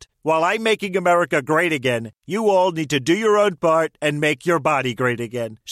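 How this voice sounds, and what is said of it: Imitates another person's voice. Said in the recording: “Celebrity voice impersonation. ... It's your favorite president.”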